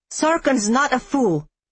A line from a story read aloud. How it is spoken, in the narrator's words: I snapped out